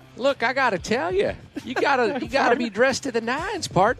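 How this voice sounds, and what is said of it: Impression of Tim McCarver. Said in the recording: “Tim McCarver ... incredible impersonation”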